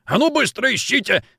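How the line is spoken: Roaring. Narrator (Russian): взревел генерал

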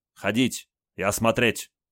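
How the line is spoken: Stern. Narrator (Russian): строго сказал Олег

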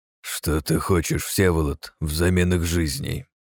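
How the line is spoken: Sudden angry, through teeth. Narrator (Russian): вдруг процедил зло Франциск

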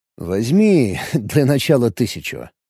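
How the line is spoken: Smirking. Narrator (Russian): хмыкнул Алекс

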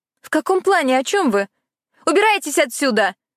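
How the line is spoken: Shout. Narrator (Russian): крикнула она

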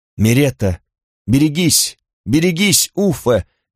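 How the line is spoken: Thin-voiced exclamation. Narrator (Russian): воскликнул Карл тонким голосом

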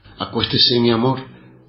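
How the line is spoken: Plain. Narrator (Spanish): dijo Zulma

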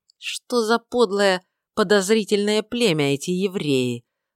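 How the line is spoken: Through gritted teeth, male. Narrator (Russian): проговорил он сквозь зубы

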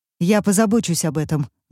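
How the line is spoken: Tense female voice. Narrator (Russian): говорит женщина напряженным голосом

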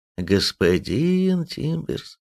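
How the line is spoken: Reproachful drawl. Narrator (Russian): протянул Никонов укоризненно

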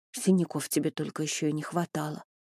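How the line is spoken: Mutter. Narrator (Russian): пробормотала

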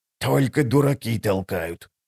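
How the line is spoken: Old woman's hiss. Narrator (Russian): прошипела старуха

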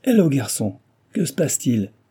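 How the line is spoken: Exclaiming. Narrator (French): s'exclama-t-il

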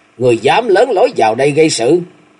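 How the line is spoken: Angry girl's shout. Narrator (Vietnamese): Thiếu nữ tức giận hét

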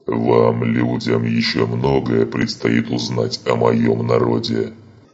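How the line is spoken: Thundering. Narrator (Russian): Прогремел

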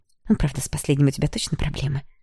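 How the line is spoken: Secretive whisper. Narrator (Russian): Шепотом добавила Ярослава, чтобы родители ее не слышали

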